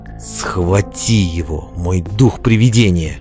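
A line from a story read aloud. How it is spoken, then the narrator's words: Malicious snarling whisper. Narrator (Russian): злобно скались, прошептала Мелис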